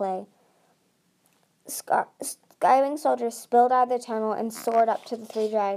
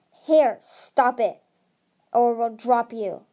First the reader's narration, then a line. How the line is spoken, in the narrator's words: snarled